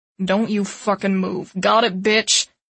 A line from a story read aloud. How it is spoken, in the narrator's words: Thor snarls